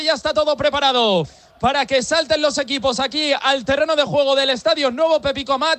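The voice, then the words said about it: Strong Madrid Spanish accent. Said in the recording (Spanish): “con acento muy madrileño”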